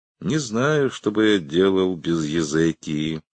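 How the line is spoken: Even voice. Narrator (Russian): ровным голосом произнес Шеридан

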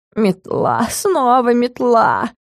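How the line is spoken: Grumbling. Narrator (Russian): ворчал Стикс

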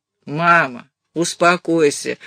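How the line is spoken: Tired. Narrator (Russian): устало сказал Натаниэль

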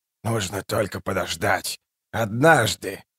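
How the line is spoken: Seer's whisper. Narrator (Russian): прошептал провидец

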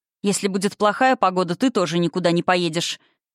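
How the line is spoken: Snort. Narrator (Russian): фыркнула

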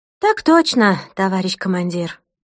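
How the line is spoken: Crisp military reply, phone. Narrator (Russian): отсалютовала в трубку Ирина

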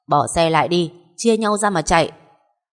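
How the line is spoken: Loud shout. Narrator (Vietnamese): hét to

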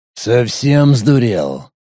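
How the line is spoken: Sudden hoarse rasp, hunter. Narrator (Russian): Неожиданно прохрипел один из охотников

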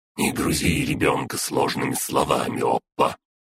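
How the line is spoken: Grumble. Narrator (Russian): Проворчала Фая

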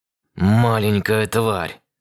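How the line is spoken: Hissed. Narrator (Russian): Расшипел я

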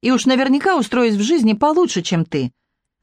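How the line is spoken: Snapping retort. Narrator (Russian): огрызнулась

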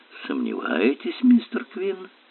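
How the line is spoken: Muttered. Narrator (Russian): пробормотала мисс Темп

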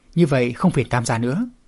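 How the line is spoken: Smiling, polite. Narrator (Vietnamese): Đông Phương Kình Lôi mỉm cười

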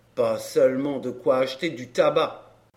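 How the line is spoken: Grumbled. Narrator (French): grommela-t-il

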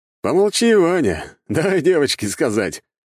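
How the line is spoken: Amused snort. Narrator (Russian): хмыкнул веселый князь воды

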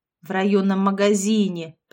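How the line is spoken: Grumbled. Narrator (Russian): проворчала Лолита

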